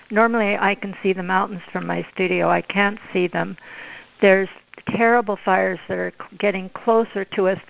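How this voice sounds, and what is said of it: Hoarse voice. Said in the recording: “I sound so hoarse”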